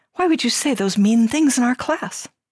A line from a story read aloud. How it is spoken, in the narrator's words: said again sweetly